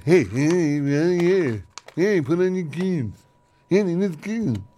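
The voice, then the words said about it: Impression of co-host's voice. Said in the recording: “Here's my impression of Ken. ... That's my impression of you. Spot on. A blind man wouldn't know which is the real Ken and which is me.”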